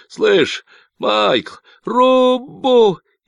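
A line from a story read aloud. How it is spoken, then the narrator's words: Hysterical scream. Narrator (Russian): истерически завопил Люк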